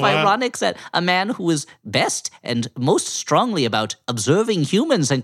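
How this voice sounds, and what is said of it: Usual voice. Nothing is said of it.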